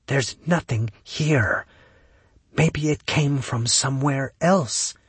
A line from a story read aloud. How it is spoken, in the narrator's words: Kaylee whispered directly into his mind